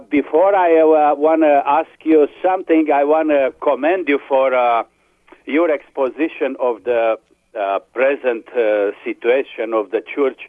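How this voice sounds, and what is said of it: Speaks with a noticeable accent. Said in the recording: “I've missed your accent. ... It's a wonderful accent.”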